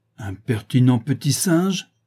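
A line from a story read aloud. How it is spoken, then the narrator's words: Exclaiming. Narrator (French): s'écria Mrs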